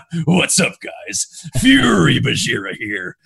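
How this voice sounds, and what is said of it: Goofy funny character voice. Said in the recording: “I would like embody my character like a funny voice.”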